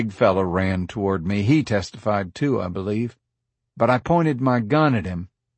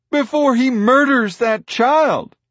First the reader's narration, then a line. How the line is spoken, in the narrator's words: a woman yelled